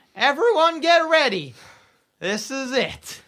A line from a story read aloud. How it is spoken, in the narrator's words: Over the tannoy, Bap yells